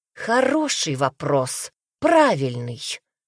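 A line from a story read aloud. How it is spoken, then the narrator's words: Woman speaking through teeth. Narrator (Russian): процедила женщина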